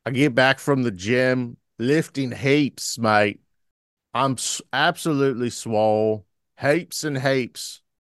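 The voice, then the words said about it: Put-on Australian accent. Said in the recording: “I've done Australian on this show more than once ... I'm actually really strong at an Australian accent. Yes, I'm actually really good at that.”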